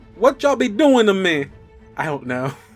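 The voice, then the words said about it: Attempted Southern American accent. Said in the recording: “I'm not good at southern accents.”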